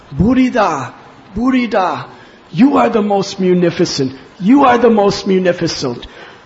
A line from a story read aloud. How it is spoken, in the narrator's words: When Lord Chaitanya Mahaprabhu heard the king singing this, he cried out